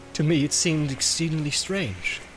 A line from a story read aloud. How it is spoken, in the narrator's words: said Boromir